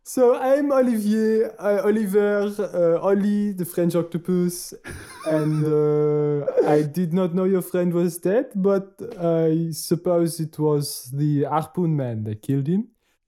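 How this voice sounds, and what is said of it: Put-on French accent. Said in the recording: “I'm a French octopus. Let's just pretend I've had this accent all along.”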